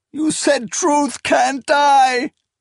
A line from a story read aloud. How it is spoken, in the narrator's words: Esmanet wailed